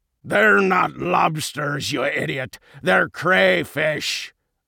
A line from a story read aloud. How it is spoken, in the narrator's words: a voice bellowed